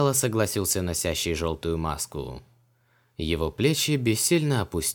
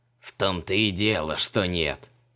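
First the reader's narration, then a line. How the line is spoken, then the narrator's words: Spiteful creaky rasp. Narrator (Russian): озлобленно проскрипел жрец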